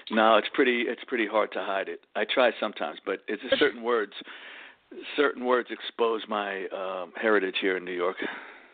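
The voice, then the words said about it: New York Bronx accent. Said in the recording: “I'm the one with the accent. ... What I got is called a Bronx accent, Bronx, New York.”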